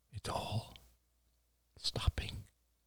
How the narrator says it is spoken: whispered Oliver

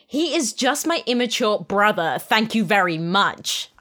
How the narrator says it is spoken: I snapped

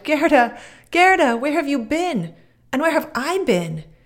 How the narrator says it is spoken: burst into tears, and he wept so hard, and shouted

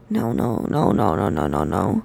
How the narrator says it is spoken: under his breath shaky, in horror

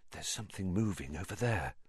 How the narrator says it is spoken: Harry breathed

